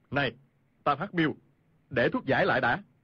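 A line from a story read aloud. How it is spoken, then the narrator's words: Shout. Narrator (Vietnamese): Khu Sử Cơ quát lên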